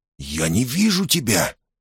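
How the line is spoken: Stunned whisper. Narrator (Russian): ошеломленно прошептал Скьюз

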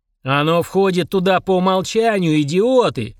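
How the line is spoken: Yelling. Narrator (Russian): заорал Фурундорог

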